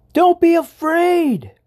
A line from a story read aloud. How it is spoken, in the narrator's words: yelled the mouse